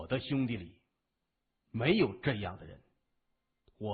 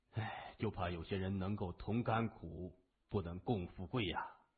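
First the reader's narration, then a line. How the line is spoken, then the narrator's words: Sighing. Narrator (Chinese): 东新雷感叹的说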